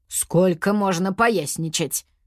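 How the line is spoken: Grumbling. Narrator (Russian): проворчал знаник

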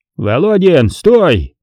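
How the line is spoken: Barking. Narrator (Russian): гаркнул Смирнов

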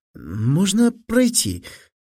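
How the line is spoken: Displeased, embarrassed babble. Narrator (Russian): с неудовольствием, чувствуя, что краснеет, пролепетал Фили

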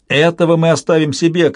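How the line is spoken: Shouted. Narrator (Russian): крикнула Альтия

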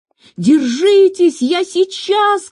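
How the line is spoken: Shout. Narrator (Russian): крикнул он

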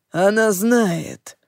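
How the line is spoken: Growl. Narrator (Russian): рыкнул Лохлин

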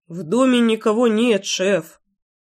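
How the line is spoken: Cautious mumble. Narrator (Russian): осторожно промямлил кто-то из парней

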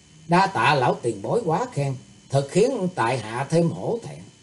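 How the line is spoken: Smiling. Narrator (Vietnamese): Thủy Tướng Hạo mỉm cười nói

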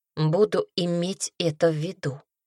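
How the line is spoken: Muttering. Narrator (Russian): пробормотала она

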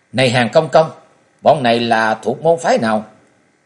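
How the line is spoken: Triumphant shouted question. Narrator (Vietnamese): Châu Hoài Ngọc gầm lên một tiếng vô cùng đắc chí, chàng thét hỏi

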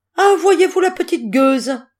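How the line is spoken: Shrill yelp, choked with shock. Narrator (French): glapit Gertrude, suffoquée de cet aveu

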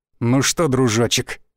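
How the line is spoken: Gloating, through teeth. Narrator (Russian): процедил череп, злорадно

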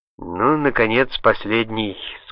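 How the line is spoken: Plain. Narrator (Russian): сказал Салливан

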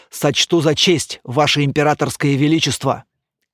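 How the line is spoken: Deep bass voice. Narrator (Russian): Герцог пробасил

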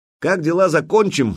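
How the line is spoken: Shouted after someone. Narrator (Russian): крикнул ему вслед

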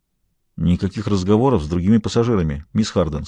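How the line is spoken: Plain. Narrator (Russian): сказал

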